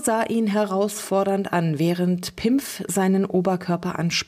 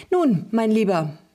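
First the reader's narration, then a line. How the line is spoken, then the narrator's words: Cheerful chatter. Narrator (German): plauderte Lulu fröhlich weiter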